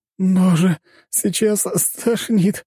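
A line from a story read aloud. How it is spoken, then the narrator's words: Moaning, nauseated. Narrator (Russian): простонала Джессика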